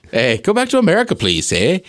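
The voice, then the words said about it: Deliberately bad Canadian accent. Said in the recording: “I'd do a terrible Canadian accent.”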